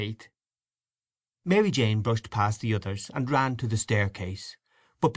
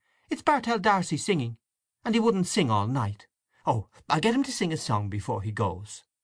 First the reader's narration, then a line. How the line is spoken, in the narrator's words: exclaimed Mary Jane